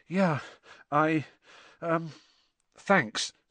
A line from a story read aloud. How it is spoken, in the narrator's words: said Harry, weakly